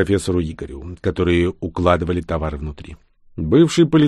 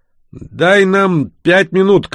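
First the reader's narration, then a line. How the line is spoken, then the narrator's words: Shouted reply. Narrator (Russian): крикнул он в ответ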